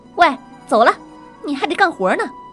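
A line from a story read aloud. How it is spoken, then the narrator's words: Old woman's rough shout. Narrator (Chinese): 老女人对我身后的女孩粗鲁的喊道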